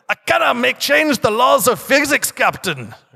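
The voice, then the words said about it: Bad Scottish accent, Montgomery Scott impression. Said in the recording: “Montgomery Scott saying ... That was terrible, wasn't it? That was a really bad Scottish accent.”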